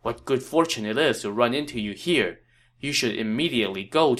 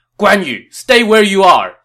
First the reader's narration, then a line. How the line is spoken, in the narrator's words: Xiahou Dun shouted